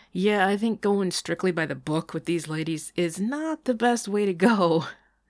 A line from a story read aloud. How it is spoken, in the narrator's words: Sean laughed